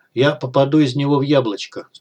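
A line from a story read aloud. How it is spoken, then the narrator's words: Calm. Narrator (Russian): спокойно сказал он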